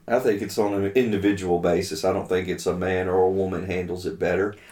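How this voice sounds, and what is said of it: Strong accent. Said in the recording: “your accent is so strong sometimes”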